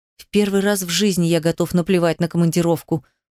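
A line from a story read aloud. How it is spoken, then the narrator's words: Hoarse wheeze. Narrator (Russian): просипел он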